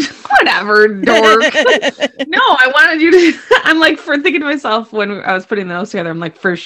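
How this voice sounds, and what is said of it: Usual voice. Nothing is said of it.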